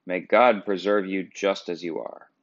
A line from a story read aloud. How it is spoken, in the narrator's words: she exclaimed